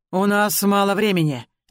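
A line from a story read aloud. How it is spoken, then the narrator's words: Displeased dragon growl. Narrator (Russian): недовольно рыкнул дракон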